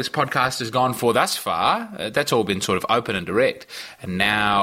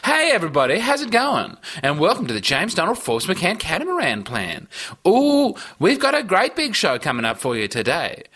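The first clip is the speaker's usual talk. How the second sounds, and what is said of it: Put-on commercial radio host voice. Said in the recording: “I'm trying to do like commercial radio voice, but I was always really bad at it.”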